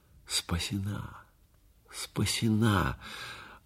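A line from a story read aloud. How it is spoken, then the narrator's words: Joyful inner repetition. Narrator (Russian): Радостно повторял про себя Юрий Андреевич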